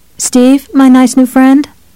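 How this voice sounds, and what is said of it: Small, little voice. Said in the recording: “in a little voice,”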